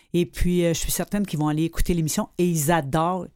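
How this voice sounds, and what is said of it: Québécois French accent. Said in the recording (French): “j'aime ça d'écouter ton accent quand tu parles ... Là, c'est l'accent du Nord? ... Mon accent québécoise.”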